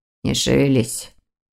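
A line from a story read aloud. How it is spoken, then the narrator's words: Quiet speech. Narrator (Russian): Дамиан тихо проговорил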